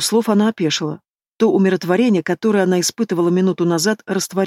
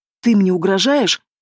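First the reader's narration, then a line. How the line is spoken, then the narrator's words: Hoarse breathy. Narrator (Russian): хрипло выдохнула она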